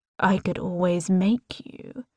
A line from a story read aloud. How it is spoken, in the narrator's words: he murmurs